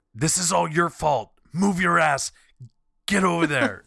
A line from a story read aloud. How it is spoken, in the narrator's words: yelling